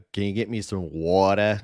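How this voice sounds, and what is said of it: Thick East Coast accent. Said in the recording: “I'm not like those East Coasters like ... Like, that's really thick.”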